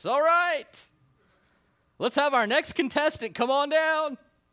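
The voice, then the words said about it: Game show announcer voice. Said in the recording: “in my best announcer voice.”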